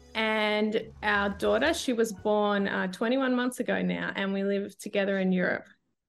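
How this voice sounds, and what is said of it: Australian accent. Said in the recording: “I'm originally Australian, as you can hear from my voice.”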